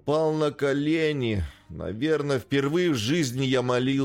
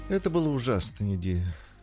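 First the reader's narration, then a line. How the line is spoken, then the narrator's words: Sigh. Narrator (Russian): вздохнула Эмили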